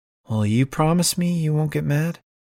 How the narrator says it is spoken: Liv sighs

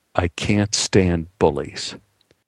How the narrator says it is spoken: Anne muttered

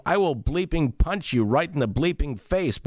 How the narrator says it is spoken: yelling, walking away yelling

